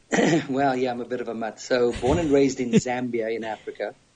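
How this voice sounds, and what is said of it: Mixed English, South African, American accent. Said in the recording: “you have quite the accent ... the accent is a little English ... a little South African, which is Afrikaans ... blended with a bit of American ... always accused of being Australian and Irish”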